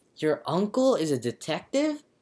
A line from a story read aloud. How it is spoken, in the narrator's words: whispers Paige